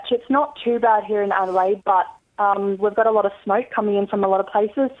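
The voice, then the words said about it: Australian accent. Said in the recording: “your lovely Australian accent”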